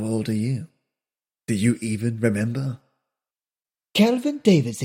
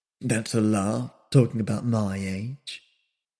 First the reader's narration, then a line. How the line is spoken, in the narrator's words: muttered the young man with a sneer